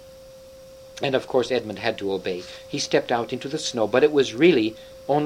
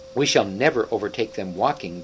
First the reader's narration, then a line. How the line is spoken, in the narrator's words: growled the dwarf